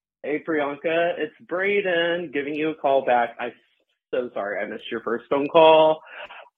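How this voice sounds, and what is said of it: Texan accent. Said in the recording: “how you made fun of my accent. I'm from Texas, hey y'all”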